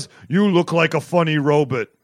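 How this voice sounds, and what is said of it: Super mutant character voice. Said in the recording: “That was a perfect superhuman, super mutant laugh. ... I gotta do a voice for Fallout 5”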